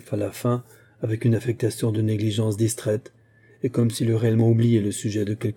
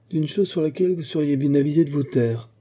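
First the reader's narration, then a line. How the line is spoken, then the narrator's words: Grumbled. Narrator (French): grommela M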